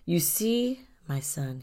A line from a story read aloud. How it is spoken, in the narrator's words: he said